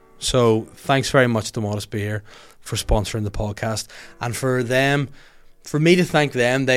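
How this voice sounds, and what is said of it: Usual voice. Nothing is said of it.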